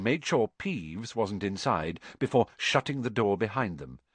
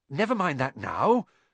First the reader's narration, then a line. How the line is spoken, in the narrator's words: said Harry, breathlessly